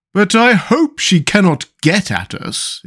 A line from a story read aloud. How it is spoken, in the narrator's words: exclaimed the Pumpkinhead with a shiver of fear